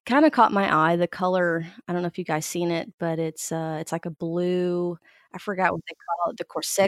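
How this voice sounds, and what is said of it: Voice affected by allergies. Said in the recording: “I'm dealing with a little bit of allergies too ... apologize for my voice”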